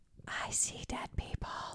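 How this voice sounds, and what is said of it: Whispered line. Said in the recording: “I love a good whisper line.”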